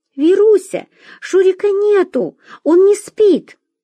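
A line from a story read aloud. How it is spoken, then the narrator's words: Shouted. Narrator (Russian): Мария крикнула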